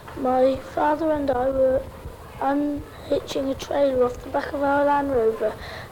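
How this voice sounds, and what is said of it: British child's accent. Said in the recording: “these boys and girls speak with a British accent”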